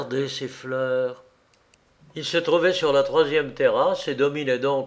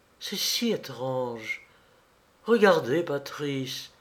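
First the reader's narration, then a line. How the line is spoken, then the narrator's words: Murmured. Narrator (French): murmura-t-elle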